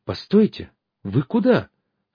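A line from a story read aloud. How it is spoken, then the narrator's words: Disconcerted exclamation. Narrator (Russian): обескураженно воскликнула Лидочка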